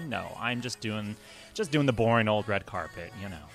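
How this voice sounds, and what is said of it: Sarcastic delivery. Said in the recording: “said that so sarcastically”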